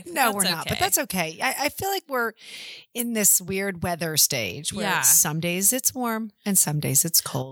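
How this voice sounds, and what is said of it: Congested, stuffy, lower-pitched voice. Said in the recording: “Do I sound sort of funny? I feel like I'm all stopped up. ... It's got to be allergies. ... I feel like I sound weird. ... Do I sound like a man? ... I feel like I sound like a man.”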